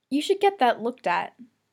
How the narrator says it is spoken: Helen had said

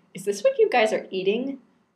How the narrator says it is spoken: I laughed

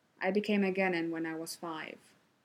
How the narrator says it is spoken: Kakashi answered flatly

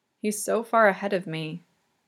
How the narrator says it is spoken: Yuri murmurs softly, brokenly

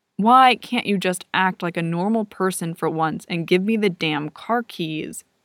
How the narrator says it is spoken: Aaron asks

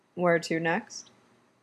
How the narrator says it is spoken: he asks

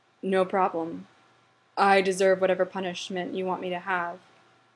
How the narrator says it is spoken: Derek sighed ... he said

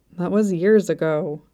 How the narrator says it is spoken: he muttered

